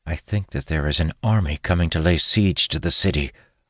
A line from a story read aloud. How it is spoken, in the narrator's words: I say quietly